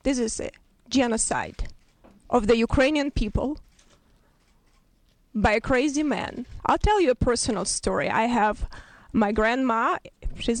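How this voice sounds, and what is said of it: Very noticeable Ukrainian accent. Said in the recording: “she is of Ukrainian origin ... you'll hear her, you know, very noticeable accent.”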